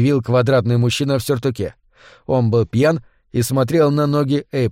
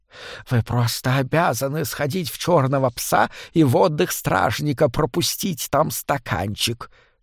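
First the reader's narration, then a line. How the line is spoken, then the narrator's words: Heavy lisp. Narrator (Russian): сообщил ей сильно шепелявый мужчина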